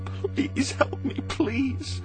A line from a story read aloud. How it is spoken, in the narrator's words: Maggie begged